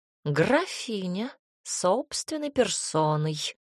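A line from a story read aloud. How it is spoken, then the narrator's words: Purring cat. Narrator (Russian): промурлыкала кошка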